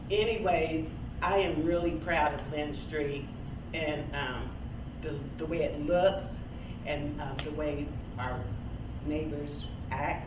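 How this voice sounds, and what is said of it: Nervous-sounding voice. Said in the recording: “I'm a little bit nervous, that's why my voice is like that.”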